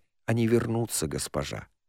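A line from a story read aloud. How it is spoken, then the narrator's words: Quiet. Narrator (Russian): Таанах тихо сказала ей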